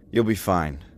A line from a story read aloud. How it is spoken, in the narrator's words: he said curtly